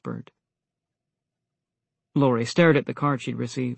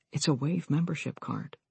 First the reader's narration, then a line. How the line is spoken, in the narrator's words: whispered back